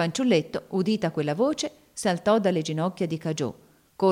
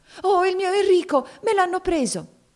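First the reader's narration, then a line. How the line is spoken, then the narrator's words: Agonized cry. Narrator (Italian): un'espressione di agonia le intorbidò il volto ed ella si rizzò bruscamente gridando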